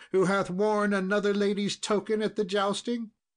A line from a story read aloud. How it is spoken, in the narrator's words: cried she